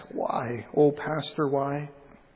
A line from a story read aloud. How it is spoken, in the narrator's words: a gold star mother weep and hold a picture nigh to her broken heart and softly ask